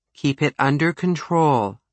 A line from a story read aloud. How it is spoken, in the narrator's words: Underwood said calmly